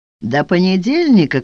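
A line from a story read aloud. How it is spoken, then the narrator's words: Shout. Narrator (Russian): крикнул он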